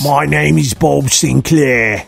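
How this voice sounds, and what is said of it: Gravelly Cockney old man voice. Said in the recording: “It's a real Cockney accent ... Really gravelly.”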